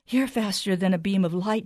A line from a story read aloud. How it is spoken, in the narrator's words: she panted